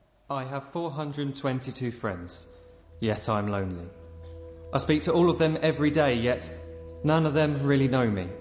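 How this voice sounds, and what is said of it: Speaker with a distinctive accent. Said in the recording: “a really cool accent”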